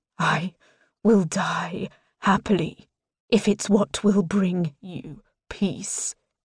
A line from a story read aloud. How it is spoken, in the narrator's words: he rasps, thick emotion bleeding into his tone